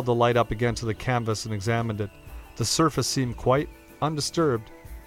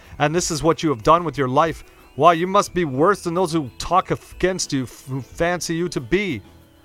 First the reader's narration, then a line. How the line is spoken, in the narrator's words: he exclaimed